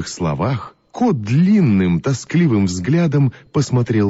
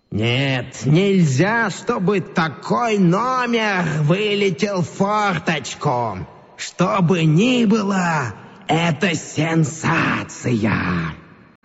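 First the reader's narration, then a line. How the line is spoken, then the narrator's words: Hurried, hoarse, strained. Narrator (Russian): директор цирка поспешно заговорил, но каким-то хриплым, не своим голосом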